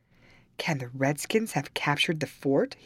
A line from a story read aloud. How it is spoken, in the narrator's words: he exclaimed